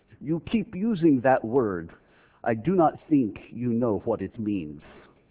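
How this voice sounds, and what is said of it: Attempted Inigo Montoya Spanish accent. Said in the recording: “Indigo Montoya. I can't do the accent. I can try, though.”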